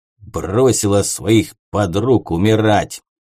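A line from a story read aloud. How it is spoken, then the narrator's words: Contemptuous words through teeth. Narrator (Russian): презрительно процедил кочерышка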